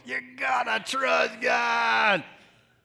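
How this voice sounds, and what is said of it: Raspy voice. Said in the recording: “say that with me with a raspy voice.”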